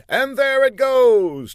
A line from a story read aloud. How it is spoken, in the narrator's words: David Copperfield exclaimed